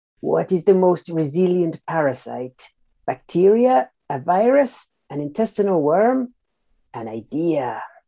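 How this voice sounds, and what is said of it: Peter Lorre impression. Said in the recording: “say a film quote in a weird accent ... I'm not very good at accents, so I'm going to attempt to do this in the style of Peter Lorre.”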